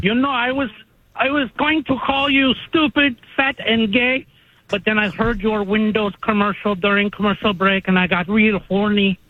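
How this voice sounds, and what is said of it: Caller speaking in put-on accent. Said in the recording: “Why the accent? I mean, he could just do a regular voice”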